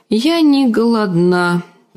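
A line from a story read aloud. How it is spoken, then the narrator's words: Sad. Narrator (Russian): печально проговорила Дэнни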